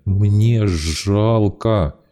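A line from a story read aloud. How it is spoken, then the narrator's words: Hoarse tearful voice. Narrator (Russian): сипел Ник, размазывая слезы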